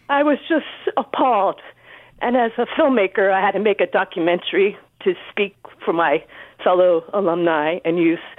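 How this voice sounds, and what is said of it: Emotional voice. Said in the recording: “I'm a little emotional.”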